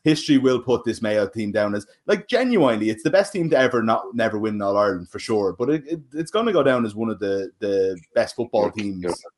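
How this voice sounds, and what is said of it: Dublin Irish accent. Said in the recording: “I'm a Clare man with a Dublin accent”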